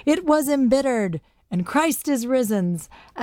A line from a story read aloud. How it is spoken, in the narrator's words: holler out some triumphant